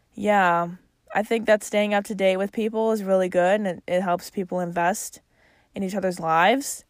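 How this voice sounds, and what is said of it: Chicago accent. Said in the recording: “my Chicago accent. There it is.”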